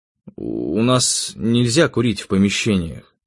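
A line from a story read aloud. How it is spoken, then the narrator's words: Gloomy reply. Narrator (Russian): мрачно ответил я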